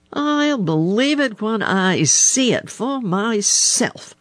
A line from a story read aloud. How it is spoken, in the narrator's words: snapped Blacky the Crow